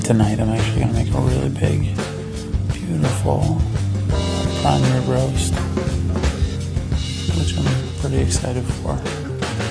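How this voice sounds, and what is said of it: Whispering. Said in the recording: “I'm whispering”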